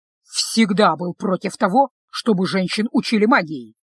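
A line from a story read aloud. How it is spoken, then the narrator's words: Displeased grumble. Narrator (Russian): недовольно проворчал Делиль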